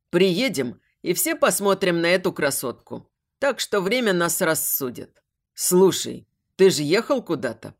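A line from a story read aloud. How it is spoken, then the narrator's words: Deep bass, big man. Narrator (Russian): пробасил наш здоровяк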